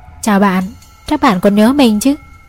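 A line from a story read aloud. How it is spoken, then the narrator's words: Smiling reply. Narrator (Vietnamese): Trung mỉm cười và đáp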